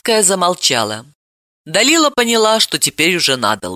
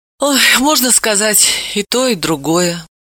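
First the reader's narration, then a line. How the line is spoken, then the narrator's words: Sighed. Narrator (Russian): вздохнула Левицкая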